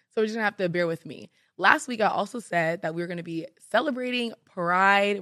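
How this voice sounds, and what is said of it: Raspy, strained voice. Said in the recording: “My voice is a little bit out ... it's not much better. But it's kind of sexy because it's raspy”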